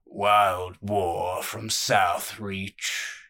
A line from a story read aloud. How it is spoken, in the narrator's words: rumbled